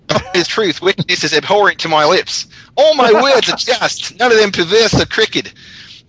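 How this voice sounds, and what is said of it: Poor put-on Australian accent. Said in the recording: “Can I do it in an Australian accent? ... Bad, actually.”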